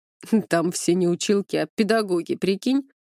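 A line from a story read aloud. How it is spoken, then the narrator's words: Chuckling at own joke. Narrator (Russian): хохотнул над собственной шуткой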